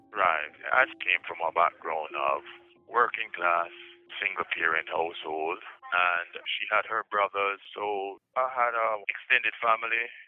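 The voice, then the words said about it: Jamaican accent. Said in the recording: “if we're detecting an accent here, that's because ... originally traveled to the U.S. as a student from Jamaica.”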